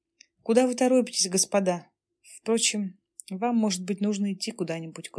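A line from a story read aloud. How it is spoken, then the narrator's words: Sad. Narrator (Russian): грустно проговорила Александра Васильевна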